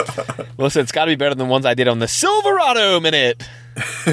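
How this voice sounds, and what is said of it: Usual voice. Nothing is said of it.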